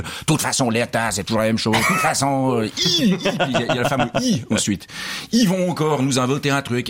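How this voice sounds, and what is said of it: Imitation of a guest, stronger accent. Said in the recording (French): “imitation de Nicolas Youtset que vous faites ... avec un accent un petit peu plus marqué”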